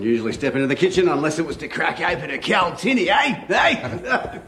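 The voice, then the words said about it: Australian accent imitating Crocodile Dundee. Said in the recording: “Why should you be the only one who gets to do an accent? ... It was Mick Dundee. Americans love Crocodile Dundee.”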